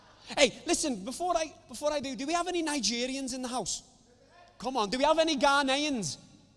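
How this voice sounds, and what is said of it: Foreign accent. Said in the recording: “Do you understand me, my accent? ... With me being a foreigner.”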